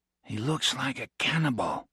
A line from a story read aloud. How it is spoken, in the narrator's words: he whispered